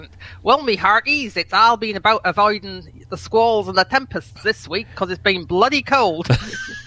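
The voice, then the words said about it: Put-on pirate accent. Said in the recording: “she says in the best pirate accent.”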